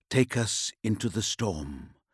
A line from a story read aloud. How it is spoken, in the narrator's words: he said, whispering